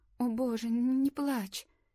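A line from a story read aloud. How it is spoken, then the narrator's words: Trembling voice. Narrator (Russian): Лори сказала дрожащим голосом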